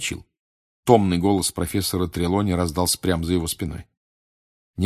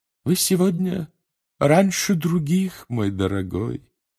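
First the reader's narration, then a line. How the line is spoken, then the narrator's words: Sad tone. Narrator (Russian): печальным тоном обратилась она к нему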